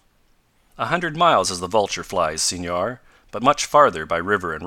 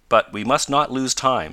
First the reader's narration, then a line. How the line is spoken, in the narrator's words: said Professor Bumper